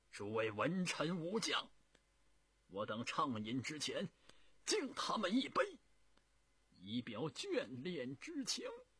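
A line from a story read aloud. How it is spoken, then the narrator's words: Tearful loud proposal. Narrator (Chinese): 朱元璋已经是泪流满面，他大声的提议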